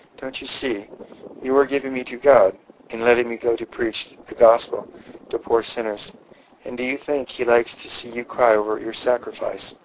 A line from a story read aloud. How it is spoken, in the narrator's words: Could ever a rebuke have been more sweetly and graciously given